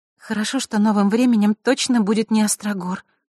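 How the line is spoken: Sigh. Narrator (Russian): вздохнула Василиса

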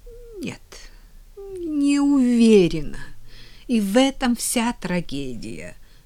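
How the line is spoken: Moan. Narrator (Russian): простонала она

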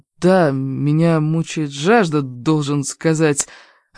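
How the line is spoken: Shy, strained. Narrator (Russian): выдавил он застенчивой улыбкой

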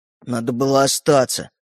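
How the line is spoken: Displeased grumble. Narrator (Russian): недовольно пробурчал Родька

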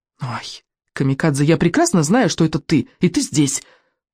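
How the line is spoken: Whisper. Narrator (Russian): прошептал Экинг

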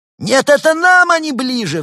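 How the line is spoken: Shriek. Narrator (Russian): взвизгнул Бур

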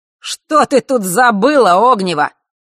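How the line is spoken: Sudden shout. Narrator (Russian): вдруг выкрикнул Марк

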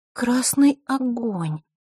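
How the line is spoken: Puzzled drawl. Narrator (Russian): озадаченно протянула Диана

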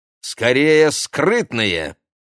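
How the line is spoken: Exclaiming. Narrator (Russian): воскликнула Ксения

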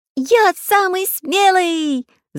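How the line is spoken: Shrieking. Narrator (Russian): завизжал Чижик

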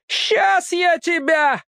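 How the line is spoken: Old woman yelling. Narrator (Russian): орала бабка

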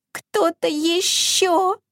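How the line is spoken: Barely audible mouse-like squeak. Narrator (Russian): пропищал едва слышно, словно мышонок

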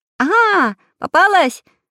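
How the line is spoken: Shouting. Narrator (Russian): закричал Прутик

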